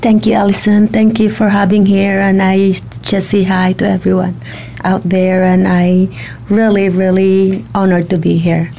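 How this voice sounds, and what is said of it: Slight Filipino accent. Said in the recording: “you're from the Philippines ... you might hear a little bit of an accent.”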